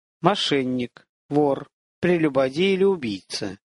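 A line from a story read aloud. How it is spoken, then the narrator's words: Priest speaking slowly. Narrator (Russian): медленно сказал жрец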